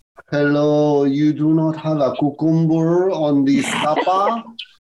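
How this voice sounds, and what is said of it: Put-on Spanish accent. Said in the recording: “with a Spanish accent”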